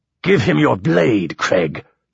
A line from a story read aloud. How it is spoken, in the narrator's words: snapped Bertol